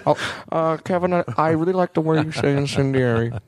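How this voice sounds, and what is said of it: Imitates another person's voice. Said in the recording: “That's a terrible impression”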